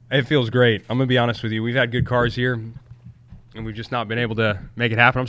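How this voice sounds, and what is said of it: Weak, fading sick voice. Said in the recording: “my voice is going away. I've been sick.”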